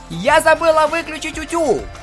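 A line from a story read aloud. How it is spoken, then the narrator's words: Shout. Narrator (Russian): крикнула Пинки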